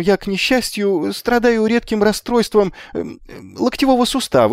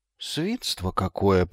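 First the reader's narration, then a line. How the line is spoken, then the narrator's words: Mutter. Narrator (Russian): пробормотал Магнан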